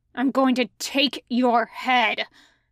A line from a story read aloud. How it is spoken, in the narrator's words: he snarls